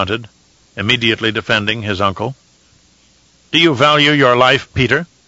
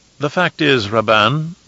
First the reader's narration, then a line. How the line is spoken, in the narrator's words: the twisted Mentat said smoothly, with the voice of a snake